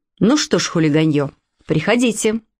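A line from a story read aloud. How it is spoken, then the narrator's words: Stern. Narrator (Russian): Я строго сказала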